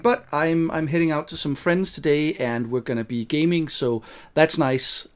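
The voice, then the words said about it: Slightly rough, hoarse voice. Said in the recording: “I was sick yesterday ... my voice is still a bit rough. I had throat ache and cold”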